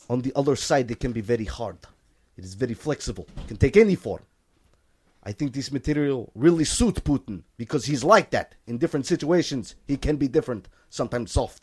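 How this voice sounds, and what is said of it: Exaggerated Russian accent. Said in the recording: “reread that whole thing, but in a Russian accent ... You want me to go full, like, Zangief?”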